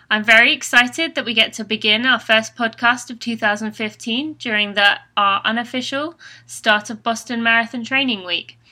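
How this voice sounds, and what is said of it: British English accent. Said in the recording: “I'm hoping you do not mind the British accent. I'm originally from England”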